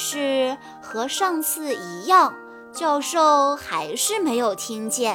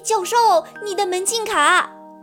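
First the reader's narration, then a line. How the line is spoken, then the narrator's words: Shouting. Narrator (Chinese): 小溪大叫道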